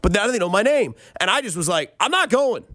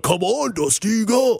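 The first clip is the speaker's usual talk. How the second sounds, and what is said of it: A poorly done impersonated voice. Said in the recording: “that's a terrible impersonation.”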